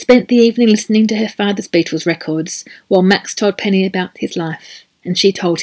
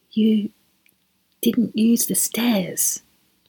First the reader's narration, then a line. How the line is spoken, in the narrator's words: whispered